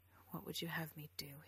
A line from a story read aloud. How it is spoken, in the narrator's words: he asked, and she could tell that he was summoning every bit of his restraint to keep his voice low